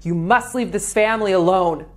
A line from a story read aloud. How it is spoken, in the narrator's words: yelling